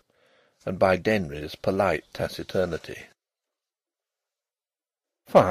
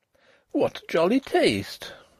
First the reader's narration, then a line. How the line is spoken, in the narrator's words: exclaimed